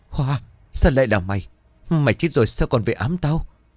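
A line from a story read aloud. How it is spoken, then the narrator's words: Trembling, terrified woman. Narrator (Vietnamese): Bà giật ngược người ngồi sắt vào bờ tường run rẩy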